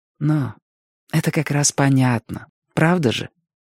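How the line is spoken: Soft, gentle. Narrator (Russian): мягко сказал Робин

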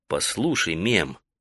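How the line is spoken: Gentle reproach. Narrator (Russian): мягко укорил его Таита

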